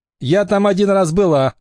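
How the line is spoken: Laughing. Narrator (Russian): рассмеялась Эмили

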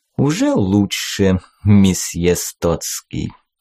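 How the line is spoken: Pleased purr. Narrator (Russian): довольно промурлыкал рожь

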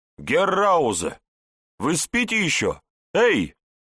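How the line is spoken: Shouted. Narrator (Russian): кричал, Ратман

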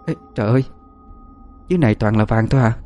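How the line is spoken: Soft whisper. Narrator (Vietnamese): tôi khe khẽ nói

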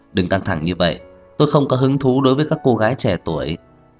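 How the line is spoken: Soft smiling voice. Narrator (Vietnamese): Trang Hạo Nhiên khẽ nở nụ cười nói

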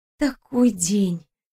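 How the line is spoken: Soft breathy. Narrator (Russian): тихо выдохнула девушка

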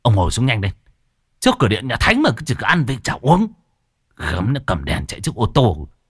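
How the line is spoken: Sharp shout. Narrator (Vietnamese): Lão Tam thấy hình cha Thọt quá lố, liền quát

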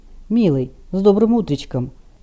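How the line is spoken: Quiet happy smiling reply. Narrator (Russian): Рид радостно улыбнулся, не открывая глаз, тихо ответил

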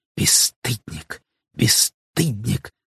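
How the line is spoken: Reproachful whisper. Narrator (Russian): зашептала она укоризненно

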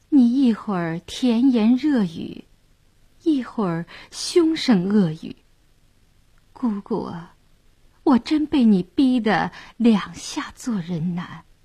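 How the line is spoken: Stunned, soft sigh. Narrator (Chinese): 谭健儿倒愣了，轻叹一声

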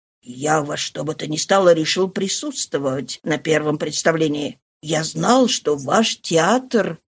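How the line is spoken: Confused mumble. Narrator (Russian): Ла Фулуаз ничего не понимая, пробормотал

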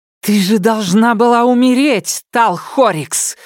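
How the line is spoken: Screaming, shaking with rage. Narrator (Russian): завопила Сизин, дрожа от ярости

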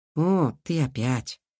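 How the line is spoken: Helpless sigh. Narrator (Russian): Алиса с Кирой бессильно вздохнули

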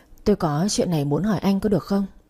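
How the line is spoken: Soft question. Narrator (Vietnamese): tôi khẽ hỏi

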